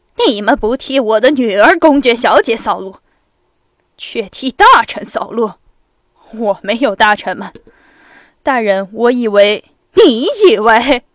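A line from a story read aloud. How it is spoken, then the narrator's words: Roaring, fast, incoherent. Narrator (Chinese): 公爵咆哮着，他越说越快，越不连贯了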